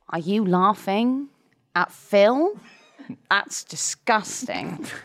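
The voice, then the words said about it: Good Keir Starmer impression. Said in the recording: “That's quite a good impression.”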